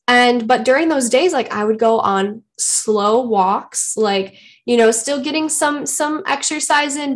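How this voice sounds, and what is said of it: Congested, stuffy voice. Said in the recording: “It was just like a head cold, like some congestion. And obviously you can probably still hear it in my voice”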